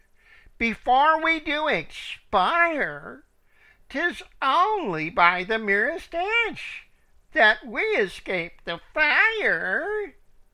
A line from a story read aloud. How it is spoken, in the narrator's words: these poor birds cried